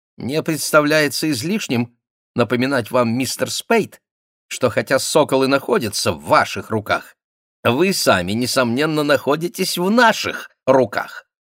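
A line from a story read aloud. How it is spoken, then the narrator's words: Thin, prim voice. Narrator (Russian): своим тонким голоском чопорно произнес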